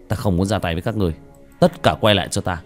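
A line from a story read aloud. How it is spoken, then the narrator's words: Cold snort, then shout. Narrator (Vietnamese): Tiểu Thất hừ lạnh một tiếng quát lên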